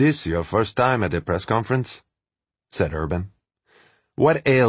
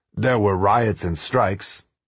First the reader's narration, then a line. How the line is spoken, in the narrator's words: says Jaruzelski